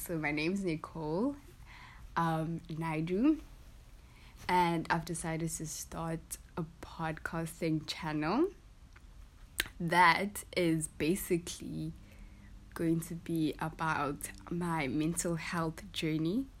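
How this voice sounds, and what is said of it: Groggy, just-woken-up voice. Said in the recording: “Please excuse my voice. I literally just got up.”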